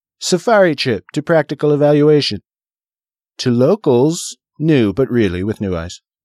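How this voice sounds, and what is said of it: Imitates another person's voice. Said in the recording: “You are getting better at your Trump impersonation”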